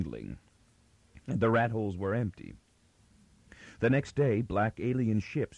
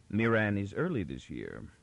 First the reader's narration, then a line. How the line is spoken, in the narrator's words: the captain said